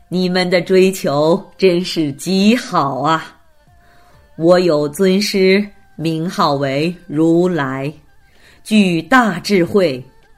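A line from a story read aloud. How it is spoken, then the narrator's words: Happy, smiling. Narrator (Chinese): 须达长者听后心生欢喜，笑着说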